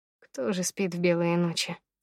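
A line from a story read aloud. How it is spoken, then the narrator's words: Sighing into phone. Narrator (Russian): вздохнул в трубку Федя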